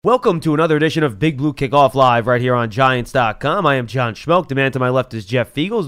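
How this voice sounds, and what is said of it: Sick, congested voice from cold. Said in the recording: “You sound sick today ... I have a little bit of a cold.”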